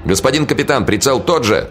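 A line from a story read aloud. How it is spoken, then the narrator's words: Shouted from below. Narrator (Russian): кричали снизу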